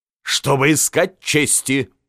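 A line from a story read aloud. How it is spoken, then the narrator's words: Loud laughter. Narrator (Russian): захохотал Бисмарк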